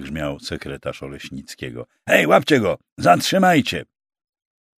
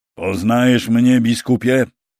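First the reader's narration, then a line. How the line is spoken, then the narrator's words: Young knight crying out. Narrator (Polish): zakrzyknął młody rycerz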